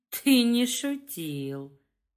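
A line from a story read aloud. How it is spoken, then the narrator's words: Breathy whisper. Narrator (Russian): на выдохе прошептал Вадик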